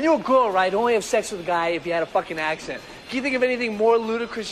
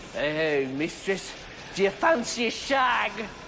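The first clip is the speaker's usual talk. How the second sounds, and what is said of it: Put-on British accent. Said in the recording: “put on some kind of stupid fucking accent”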